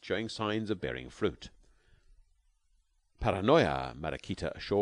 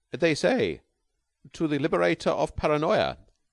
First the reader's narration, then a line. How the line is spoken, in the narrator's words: kindly translated the peerless one